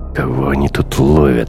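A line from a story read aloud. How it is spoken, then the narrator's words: Irritated question. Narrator (Russian): раздраженно спросил Бруно после очередной проверки документов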